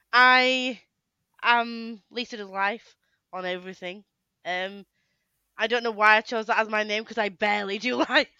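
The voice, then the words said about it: Yorkshire northern English accent. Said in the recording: “I'm obviously from Yorkshire, up north. You didn't tell by accent.”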